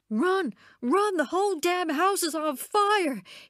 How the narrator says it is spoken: he screamed into Constance's face

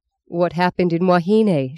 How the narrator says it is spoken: she asked

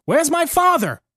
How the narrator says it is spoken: I cried

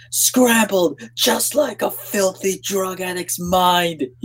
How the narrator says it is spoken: he screeched

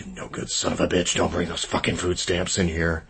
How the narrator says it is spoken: My father could be brutally mocking once the customers were beyond earshot, muttering

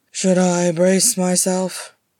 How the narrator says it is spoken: He said dryly

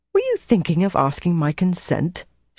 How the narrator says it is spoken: she said indignantly

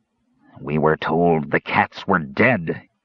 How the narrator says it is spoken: said, snarling

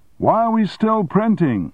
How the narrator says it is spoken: Armstrong shouted, trying to make himself heard above the noise of the presses

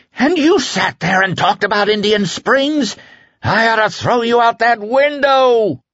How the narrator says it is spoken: Flagg screamed

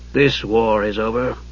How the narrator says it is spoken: Raistlin added dryly

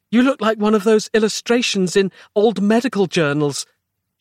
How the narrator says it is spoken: gasped

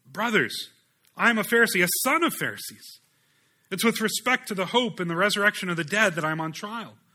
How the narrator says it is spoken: Paul cried out in the council

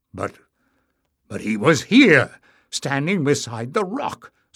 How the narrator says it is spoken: spluttered Barda

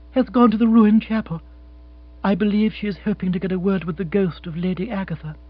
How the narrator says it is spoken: said Jill in a toneless voice

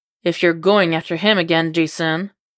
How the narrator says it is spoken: Dick huffs through his nose, his voice hard when he says

